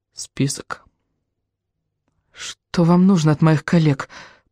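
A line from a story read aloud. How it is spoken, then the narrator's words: Barely audible faltering. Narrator (Russian): пролепетала она чуть слышно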